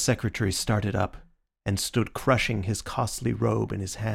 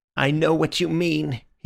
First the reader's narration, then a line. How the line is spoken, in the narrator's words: he cried